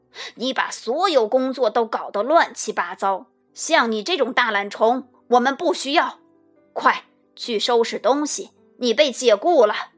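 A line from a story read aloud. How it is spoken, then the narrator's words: Angry roar. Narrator (Chinese): 管理员气冲冲地朝大熊吼道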